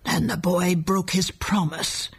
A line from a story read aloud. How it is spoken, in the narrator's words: growled the old man